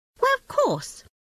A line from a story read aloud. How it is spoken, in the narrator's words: said the rat kindly